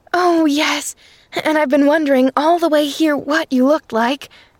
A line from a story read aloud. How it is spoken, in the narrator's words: cried the little girl, dancing on her toes